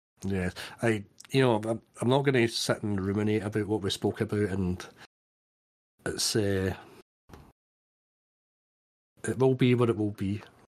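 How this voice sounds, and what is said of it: Glasgow Scottish accent. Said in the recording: “my accent comes across okay ... I may have slipped into my more, you know, kind of broader Glasgow accent”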